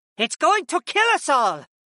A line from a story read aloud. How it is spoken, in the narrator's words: Mira Lee shouted